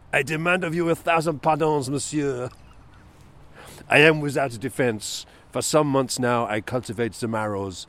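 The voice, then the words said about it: Poirot-style French accent impression. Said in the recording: “Your best accent yet. ... The first sighting of Monsieur Poirot's accent on this podcast.”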